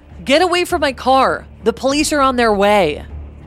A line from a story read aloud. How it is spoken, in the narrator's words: From my higher position on the hill, I shouted down at him